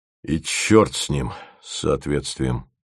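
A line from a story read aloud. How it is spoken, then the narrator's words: Muttered. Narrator (Russian): пробормотал он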